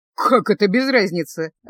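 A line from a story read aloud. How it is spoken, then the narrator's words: Laughing, man. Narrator (Russian): рассмеялся упомянутый маг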